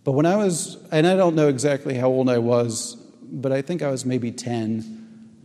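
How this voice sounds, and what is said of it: Choked-up, emotional voice. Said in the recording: “getting choked up a little bit”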